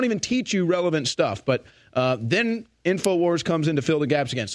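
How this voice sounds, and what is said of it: Usual voice. Nothing is said of it.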